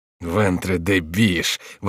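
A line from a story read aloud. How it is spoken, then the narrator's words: Grumbling. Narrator (Russian): ворчал Шико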